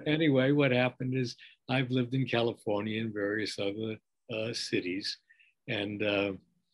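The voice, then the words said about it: New York accent. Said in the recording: “my accent belies the fact that I'm an Easterner. I mean, you can't ever lose your New York accent,”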